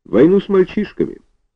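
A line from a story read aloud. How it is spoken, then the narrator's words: Innocent tone. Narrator (Russian): сказал Зазывала невинным тоном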